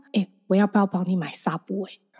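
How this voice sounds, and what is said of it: Breathy whisper. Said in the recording (Chinese): “你讲话只能用气音，我还用气音跟他说”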